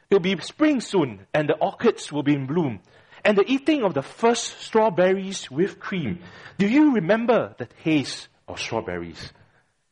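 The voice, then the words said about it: Attempted Scottish accent. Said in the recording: “I'm trying to pretend a Scottish accent.”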